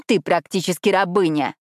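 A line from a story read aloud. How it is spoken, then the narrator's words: Spat viciously. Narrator (Russian): злобно выплюнула Надя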